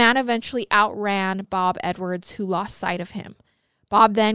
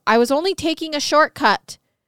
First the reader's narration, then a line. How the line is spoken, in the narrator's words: As the man ran, he yelled back at Bob